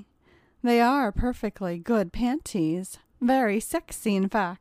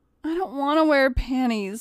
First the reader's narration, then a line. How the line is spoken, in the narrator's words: whined John